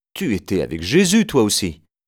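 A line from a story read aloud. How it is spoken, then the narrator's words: Servant woman exclaiming. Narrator (French): Une servante s'exclame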